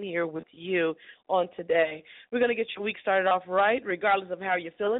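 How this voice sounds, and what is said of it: Rough, sick-sounding voice. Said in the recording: “I have a cold or something. My voice is terrible”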